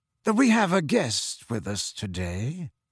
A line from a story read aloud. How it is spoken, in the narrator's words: said Snape in his low, sneering voice